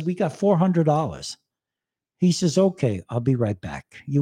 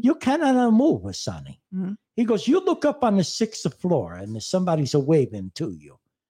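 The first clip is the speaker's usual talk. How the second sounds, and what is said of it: Put-on Italian accent. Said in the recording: “I like my Italian accent.”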